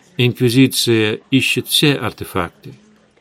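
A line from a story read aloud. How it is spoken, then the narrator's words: Calm reply. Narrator (Russian): спокойно ответил Эдгар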